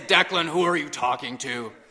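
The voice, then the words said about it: Deep stern voice. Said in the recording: “in my deepest voice”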